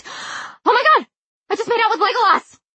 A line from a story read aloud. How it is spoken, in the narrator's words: suddenly shrieked